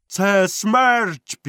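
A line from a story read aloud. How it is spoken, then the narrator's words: Shouted. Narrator (Ukrainian): крикнув Вантола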